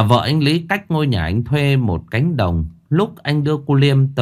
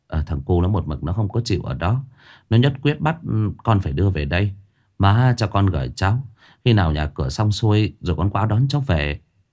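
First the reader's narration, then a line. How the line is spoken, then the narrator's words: Sighing. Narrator (Vietnamese): Anh Lý thở dài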